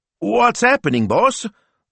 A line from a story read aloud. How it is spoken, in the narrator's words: squeaked Smilzo